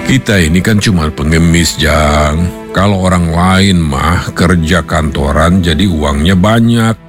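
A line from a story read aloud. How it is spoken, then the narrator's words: Plain. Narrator (Indonesian): kata si emak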